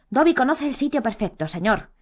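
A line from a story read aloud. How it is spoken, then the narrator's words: Exclaiming. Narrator (Spanish): exclamó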